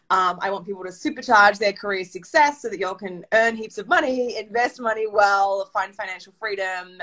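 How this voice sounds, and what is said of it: Australian accent. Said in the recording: “I'm an Australian, hence my accent”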